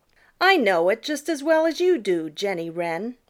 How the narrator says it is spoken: retorted Peter rather crossly

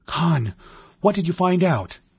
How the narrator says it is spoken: he asked breathlessly

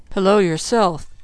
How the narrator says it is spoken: he mumbled

